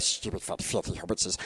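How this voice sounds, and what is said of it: Gollum impression. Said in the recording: “Gollum ... it's good, isn't it? It's actually a very good impression.”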